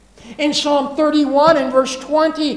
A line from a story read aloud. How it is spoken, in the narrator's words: he cries out